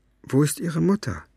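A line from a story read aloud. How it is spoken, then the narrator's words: Hesitant question. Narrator (German): fragte Farid ihn zögernd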